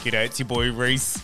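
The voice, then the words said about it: Attempted Australian accent. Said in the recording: “Is that you trying to do an Australian accent?”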